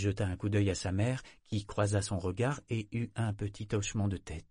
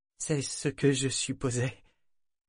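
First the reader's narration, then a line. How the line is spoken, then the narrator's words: Faint, failing voice. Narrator (French): répondit Kefria d'une voix défaillante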